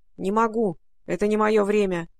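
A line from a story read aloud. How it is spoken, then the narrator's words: Gloomy, muffled. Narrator (Russian): мрачно отозвался Алан Мелик из кармана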